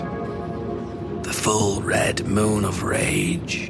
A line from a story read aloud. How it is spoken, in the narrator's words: said in a soft voice